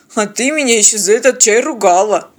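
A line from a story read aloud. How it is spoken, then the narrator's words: Grumbled. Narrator (Russian): буркнул пилот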